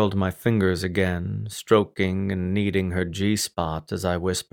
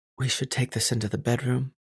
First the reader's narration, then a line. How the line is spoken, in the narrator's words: murmured against my lips